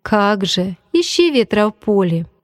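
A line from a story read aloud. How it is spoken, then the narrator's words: Laughing. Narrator (Russian): посмеялся я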